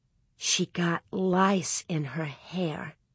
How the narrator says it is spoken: Nellie whispered

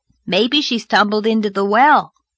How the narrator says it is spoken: suggested Davy cheerfully

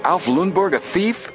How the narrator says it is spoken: Frank exclaimed

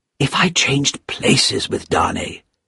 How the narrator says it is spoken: he whispered to himself

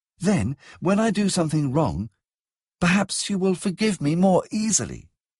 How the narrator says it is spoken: she said earnestly

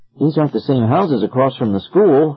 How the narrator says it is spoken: said

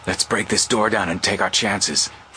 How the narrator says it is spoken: Frank whispered hoarsely

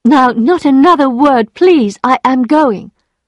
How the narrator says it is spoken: she cried

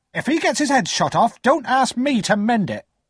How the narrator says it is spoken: my sister said sharply

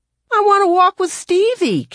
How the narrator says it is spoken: Kevin cried

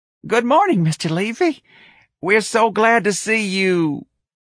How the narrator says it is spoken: Gonzalez's chipper face hardened into a mask of horror, and he squeaked

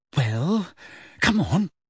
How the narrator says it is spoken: said Hermione slightly nervously

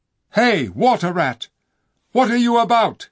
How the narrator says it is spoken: cried the king

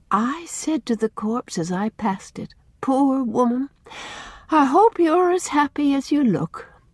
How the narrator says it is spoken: sighed Susan

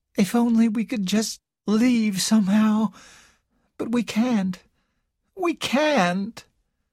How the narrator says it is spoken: Carol said in a hopeless voice

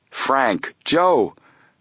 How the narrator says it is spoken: Colleague cried out in astonishment

